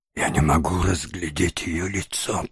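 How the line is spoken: Whispered. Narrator (Russian): прошептал Ноэ

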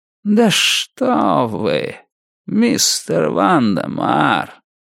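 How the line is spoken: Slow, savoring each word. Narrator (Russian): Медленно проговорил мистер Крупп, как всегда наслаждаясь каждым словом

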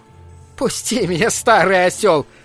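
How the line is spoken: Shouting while laughing. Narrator (Russian): кричала она, но при этом смеялась

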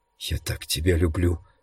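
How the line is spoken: Whisper. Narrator (Russian): прошептала Свон

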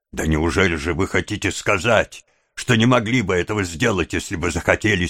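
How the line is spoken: Angry question. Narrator (Russian): сердито спросил Монкс

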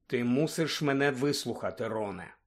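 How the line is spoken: Calm speech. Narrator (Ukrainian): спокійно промовив Люпин

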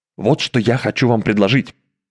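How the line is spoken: Whispered. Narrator (Russian): шепнул капитан Иргенсен

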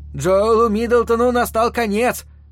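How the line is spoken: Loud proclamation. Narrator (Russian): громко возвещал он

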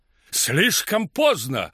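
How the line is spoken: Shouted. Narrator (Russian): крикнул сэр Лотиан

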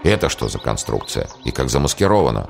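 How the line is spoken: Muttering. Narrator (Russian): бормотание Аслан Гирея

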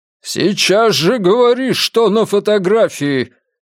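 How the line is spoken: Echoing yell. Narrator (Russian): Кеннет заорал так, что эхо загудело между домами

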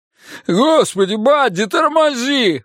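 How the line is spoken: Howling. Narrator (Russian): взвыл Ричи

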